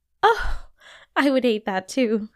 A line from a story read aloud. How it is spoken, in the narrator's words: she laughed